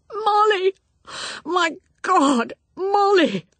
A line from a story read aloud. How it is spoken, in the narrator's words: she heard his voice cry out